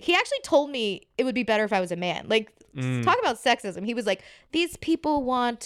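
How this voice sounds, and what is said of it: Usual voice. Nothing is said of it.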